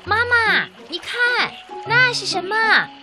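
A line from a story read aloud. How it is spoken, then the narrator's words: Sudden loud shout, young hippo. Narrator (Chinese): 小河马突然一指大河马的身后，大声地喊道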